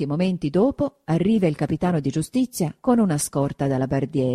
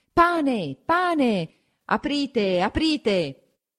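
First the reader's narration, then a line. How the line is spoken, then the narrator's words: Crowd shouting. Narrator (Italian): La gente … a gridare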